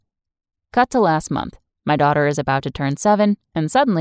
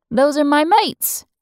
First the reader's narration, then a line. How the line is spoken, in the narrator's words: she cried joyously